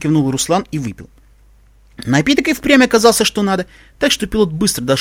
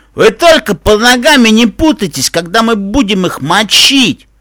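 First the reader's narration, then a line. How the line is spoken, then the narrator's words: Bloodthirsty growl. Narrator (Russian): С кровожадным блеском в глазах рычал Пегас Джо Пиквик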